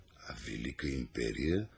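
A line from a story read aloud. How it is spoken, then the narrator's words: Muttering. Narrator (Bulgarian): промърморил Архимед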